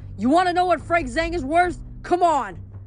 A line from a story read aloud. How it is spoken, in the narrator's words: shouting at the monsters